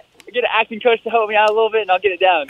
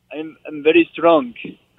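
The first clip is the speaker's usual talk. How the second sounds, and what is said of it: Put-on Russian accent. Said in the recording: “Russian accent”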